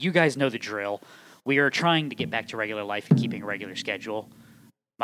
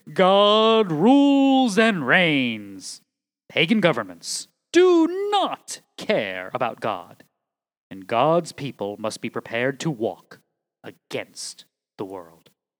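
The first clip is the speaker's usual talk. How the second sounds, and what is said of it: Proclaiming herald-style voice. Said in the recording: “Should I do this in my herald voice? ... I need to do my Herald voice”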